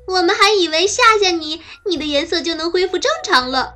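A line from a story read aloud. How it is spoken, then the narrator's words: Shouting. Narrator (Chinese): 猴子和比尾蒙冲变色龙大喊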